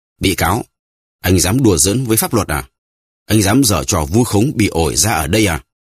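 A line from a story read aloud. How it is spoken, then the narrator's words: Judge shouting. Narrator (Vietnamese): ông chánh án quát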